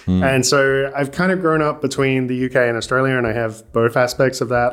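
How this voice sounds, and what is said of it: Mixed British and Australian accent. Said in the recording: “I'm originally from the UK ... moving over to Australia ... That's why my accent is all messed up.”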